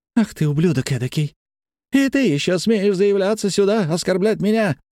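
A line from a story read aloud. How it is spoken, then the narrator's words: Screaming woman. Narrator (Russian): завопила она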